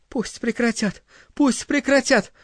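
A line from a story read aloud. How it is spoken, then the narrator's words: Pleading. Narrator (Russian): взмолилась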